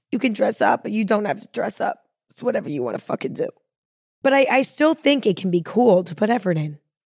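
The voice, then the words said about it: Raspy voice. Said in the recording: “I feel like a New Yorker right now with my raspy voice”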